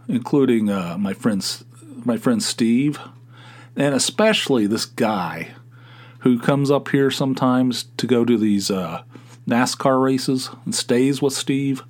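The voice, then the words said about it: Southern / Appalachian American accent. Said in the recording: “my Southern accent... I don't think my accent's as thick as those guys, but clearly I have an accent... Is it Southern or is it Appalachian? It sounds Southern... It's not Southern. It's Appalachian... Southern West Virginia”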